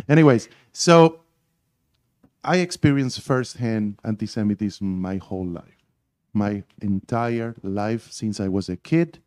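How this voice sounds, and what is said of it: Argentine Spanish accent. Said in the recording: “I grew up in Argentina ... my accent is so perfect that nobody can tell that I'm not from here”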